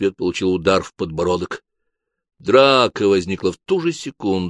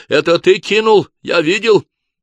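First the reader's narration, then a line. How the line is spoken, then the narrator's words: Shout. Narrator (Russian): Кто-то крикнул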